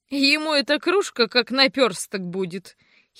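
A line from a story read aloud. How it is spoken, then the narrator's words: Girl giggling. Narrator (Russian): хихикнула девица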